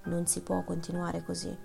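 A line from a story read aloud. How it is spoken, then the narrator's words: Muttering through teeth. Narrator (Italian): mormorando tra i denti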